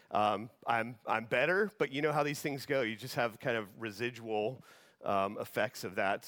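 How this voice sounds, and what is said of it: Voice affected by illness. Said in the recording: “apologize for my voice. I'm getting over pneumonia”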